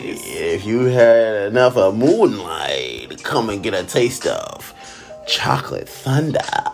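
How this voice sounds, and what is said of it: Sleazy strip club DJ announcer voice. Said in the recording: “doing the porno voice ... I can't stand the DJ ... that damn voice”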